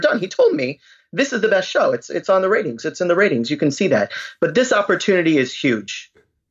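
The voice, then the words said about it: Weak celebrity impression, New York accent. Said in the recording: “How did I do? That wasn't so good. ... You probably had to be a little deeper. ... I need to work on my New York accent. ... After a failed celebrity impersonation”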